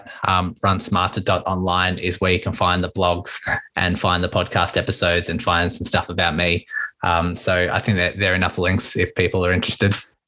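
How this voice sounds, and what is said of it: Speaks with a noticeable accent. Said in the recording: “I swear that accent, it makes you sound even smarter somehow ... I love the accent.”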